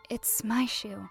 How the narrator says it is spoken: In a quiet voice, she said

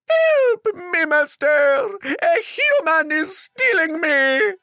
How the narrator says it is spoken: The magic harp screamed

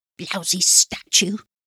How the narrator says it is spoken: he mutters

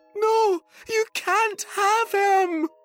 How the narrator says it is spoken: screamed Sophie

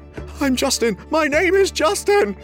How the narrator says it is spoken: he whimpered

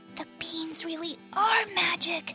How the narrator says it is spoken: whispered Jack

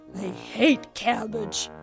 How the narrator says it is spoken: grumbled the troll

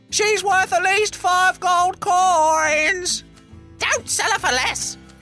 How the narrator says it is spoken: he heard his mother shout

